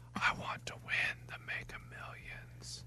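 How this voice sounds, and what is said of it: Very soft whisper. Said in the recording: “whatever you whisper, you get ... you got to be a little louder than that ... So soft.”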